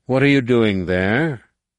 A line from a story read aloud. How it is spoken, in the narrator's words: The answer was a deep, mockingly cheerful growl